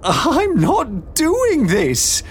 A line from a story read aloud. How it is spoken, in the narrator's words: Beatrix cried